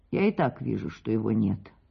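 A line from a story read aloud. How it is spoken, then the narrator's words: Low voice. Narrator (Russian): вполголоса отвечала Марья Павловна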